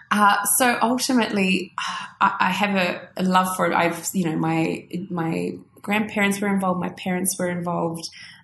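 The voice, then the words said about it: Australian accent. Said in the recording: “you can hear I'm very Aussie again. Very Aussie again.”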